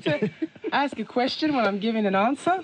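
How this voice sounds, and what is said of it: Australian rising question intonation. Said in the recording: “you've already mastered the accent ... Put a question mark at the end of the sentence.”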